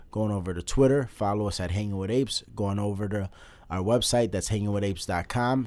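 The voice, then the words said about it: Voice sounds sick, under the weather. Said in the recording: “If my voice sounds a little different, forgive me. I've been under the weather... Under the weather, sick”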